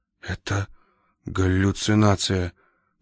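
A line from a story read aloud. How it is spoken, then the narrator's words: Whisper. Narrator (Russian): прошептал Рультабий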